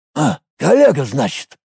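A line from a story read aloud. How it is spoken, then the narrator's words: Hairy man's snort. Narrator (Russian): хмыкнул волосатый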